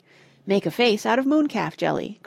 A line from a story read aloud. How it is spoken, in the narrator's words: cried Simon